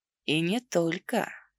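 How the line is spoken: Suggestive whisper. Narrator (Russian): прошептал с таким намеком

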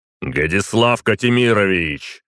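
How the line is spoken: Barked. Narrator (Russian): рявкнул я

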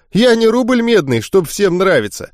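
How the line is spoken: Chuckling. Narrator (Russian): хохотнул он

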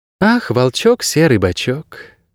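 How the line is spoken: Sigh. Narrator (Russian): вздохнула отшельница

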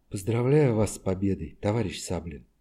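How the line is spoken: Soft, slightly husky woman. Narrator (Russian): Голос у нее был мягкий и чуть-чуть хрипловатый

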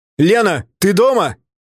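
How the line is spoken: Shouting. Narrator (Russian): крикнул я

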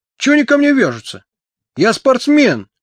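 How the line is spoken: Wailing yell. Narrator (Russian): вопил Тоха

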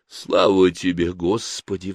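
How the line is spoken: Sighing. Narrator (Russian): вздохнула Ирена

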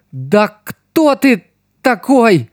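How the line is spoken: Trembling question, young woman. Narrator (Russian): дрожащим голосом спросила девушка

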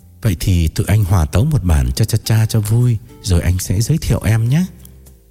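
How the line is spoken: Relieved, gentle. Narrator (Vietnamese): Trường thở phào nhẹ nhõm, rồi dịu dàng nói

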